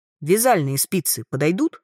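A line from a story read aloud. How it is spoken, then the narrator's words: Sudden clarifying question. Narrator (Russian): неожиданно уточнил Верт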